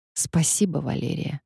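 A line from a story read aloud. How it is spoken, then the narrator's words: Whisper. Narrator (Russian): прошептал я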